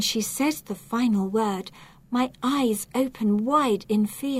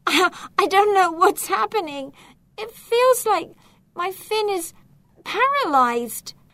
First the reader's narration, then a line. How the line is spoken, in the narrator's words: She explains, almost sobbing